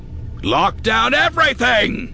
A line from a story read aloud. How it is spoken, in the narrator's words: shouting full-borne